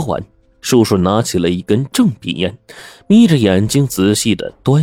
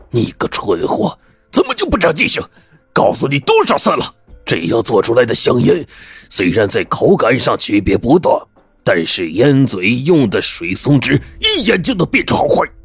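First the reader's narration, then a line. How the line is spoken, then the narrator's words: Angry shout. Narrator (Chinese): 叔叔就吼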